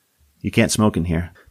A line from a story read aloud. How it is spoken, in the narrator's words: the waitress said flatly